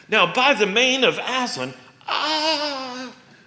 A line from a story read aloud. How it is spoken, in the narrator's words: gasped the dryad, shuddering as if in pain, shuddering time after time, as if under repeated blows